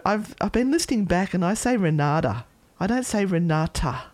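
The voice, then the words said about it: Australian accent, dropped T sounds. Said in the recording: “I don't sound the T. Mm. It's my Aussie accent... Creeping in everywhere... Like, such bad diction.”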